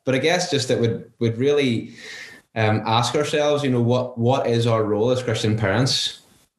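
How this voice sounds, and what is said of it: Northern Irish accent. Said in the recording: “give us a Northern Irish prayer ... I've only got the accent”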